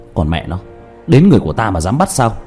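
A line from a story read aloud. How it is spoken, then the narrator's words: Angry. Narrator (Vietnamese): Diệp Thiếu Dương giận dữ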